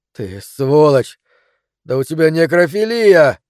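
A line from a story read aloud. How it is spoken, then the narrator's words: Forced out. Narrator (Russian): я выдавил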